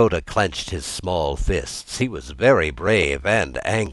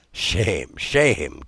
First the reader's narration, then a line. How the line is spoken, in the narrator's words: chuckled the old man